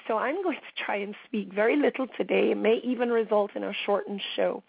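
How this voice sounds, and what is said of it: Strained, struggling voice. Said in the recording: “my voice is extremely strained today, guys ... I am really struggling with my voice”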